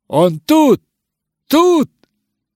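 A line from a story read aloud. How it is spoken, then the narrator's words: Shouting. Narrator (Russian): закричал мистер Хиндли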